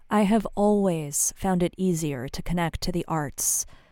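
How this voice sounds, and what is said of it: Usual voice. Nothing is said of it.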